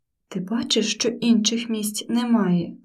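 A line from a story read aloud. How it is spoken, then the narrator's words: Bald man hissing. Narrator (Ukrainian): зашипів лисий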